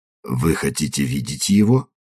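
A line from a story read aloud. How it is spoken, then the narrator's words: Confidential question. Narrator (Russian): Он конфиденциальным тоном спросил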